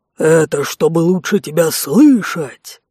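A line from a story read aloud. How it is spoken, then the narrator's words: Low growl. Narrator (Russian): Низким голосом прорычал Конт, не удержавшись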